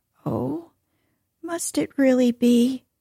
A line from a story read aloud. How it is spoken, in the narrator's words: sighed the grandmother